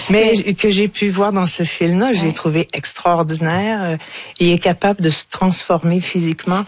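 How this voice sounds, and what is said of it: Strong regional French accent. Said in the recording (French): “Moi, j'ai un gros accent”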